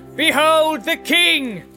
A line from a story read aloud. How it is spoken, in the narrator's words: Faramir cried